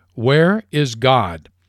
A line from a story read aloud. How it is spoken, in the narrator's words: the preacher repeated the question in the even sterner tone